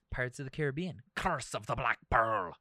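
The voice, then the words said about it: Odd Irish-sounding Barbossa pirate voice. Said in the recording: “What was that accent? ... that's like an Irishman. ... Some odd Barbossa take.”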